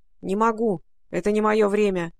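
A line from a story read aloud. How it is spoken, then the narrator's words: Gloomy reply from pocket. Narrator (Russian): мрачно отозвался Алан Мелик из кармана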